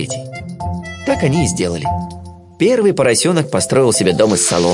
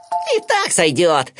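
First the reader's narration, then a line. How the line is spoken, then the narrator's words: Laughing loudly. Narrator (Russian): расхохотался поросенок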